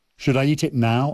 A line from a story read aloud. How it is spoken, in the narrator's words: I asked